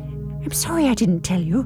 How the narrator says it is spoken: whisper

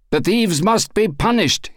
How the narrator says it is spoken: cried

